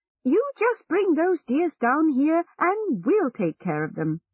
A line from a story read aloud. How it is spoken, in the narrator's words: one woman cried